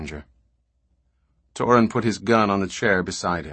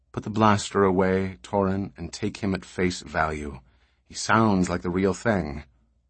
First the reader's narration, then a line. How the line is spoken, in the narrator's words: Beta said calmly